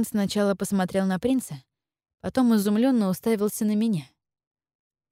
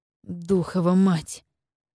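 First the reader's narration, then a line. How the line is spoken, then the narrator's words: Irritated growl. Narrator (Russian): раздраженно прорычал Вайдун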